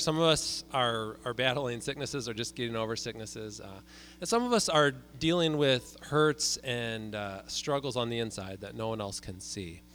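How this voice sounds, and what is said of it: Slightly froggy, hoarse voice from cold. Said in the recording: “I'm one of those people as well. So I apologize for my voice this morning. It's a little froggy”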